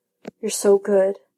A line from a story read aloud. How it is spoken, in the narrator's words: Bond mutters